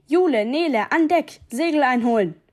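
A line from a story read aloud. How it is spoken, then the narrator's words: Thundering telepathic voice. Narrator (German): donnerte Nick Wavebirds Gedankenstimme durch unsere Köpfe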